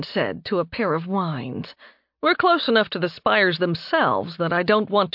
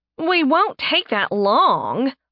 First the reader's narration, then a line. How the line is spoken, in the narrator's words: Faye whined